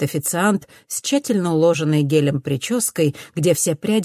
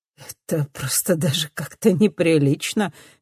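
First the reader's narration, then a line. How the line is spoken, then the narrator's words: Laughing. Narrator (Russian): говорит Винсент, смеясь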